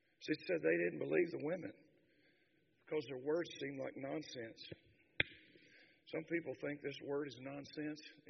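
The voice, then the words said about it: Hoarse voice. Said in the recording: “after 3 days of preaching, fourth day, I'm usually hoarse. I think my voice is getting stronger.”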